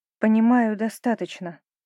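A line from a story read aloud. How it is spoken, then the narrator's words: Calm female reply. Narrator (Russian): ответила спокойно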